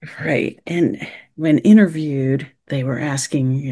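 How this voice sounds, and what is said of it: Usual voice. Nothing is said of it.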